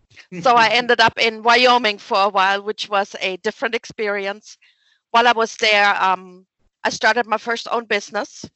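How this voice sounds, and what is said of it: German accent. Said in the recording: “you can probably tell from my accent, I'm not exactly from East Tennessee ... So I'm originally from Germany”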